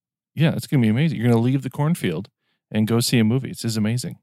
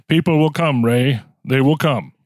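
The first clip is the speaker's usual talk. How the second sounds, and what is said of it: Imitates another person's voice. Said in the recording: “my James Earl Jones impression”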